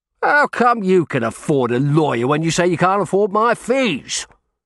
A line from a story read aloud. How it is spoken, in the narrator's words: he asked them in a bullying voice